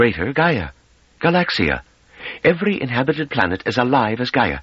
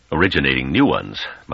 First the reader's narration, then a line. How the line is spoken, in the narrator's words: muttered Jendabal sarcastically